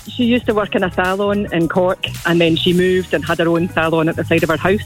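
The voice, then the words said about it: Non-Irish accent. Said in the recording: “That's not an Irish accent I'm hearing there ... This is my West Cork accent.”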